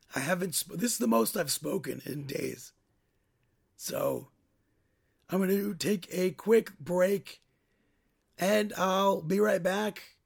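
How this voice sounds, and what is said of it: Strained, tired voice. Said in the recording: “my voice is strained enough”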